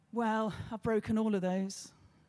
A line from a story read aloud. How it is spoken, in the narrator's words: he sighed and said